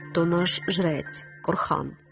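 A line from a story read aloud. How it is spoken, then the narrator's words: Quiet. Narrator (Ukrainian): тихо сказав Мелітон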